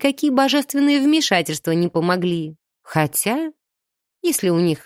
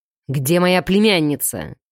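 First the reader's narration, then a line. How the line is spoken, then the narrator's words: Growl. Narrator (Russian): прорычал избранник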